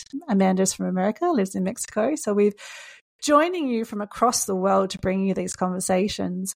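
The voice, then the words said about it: Australian accent. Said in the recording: “I am an Australian. You may be able to hear that from my accent.”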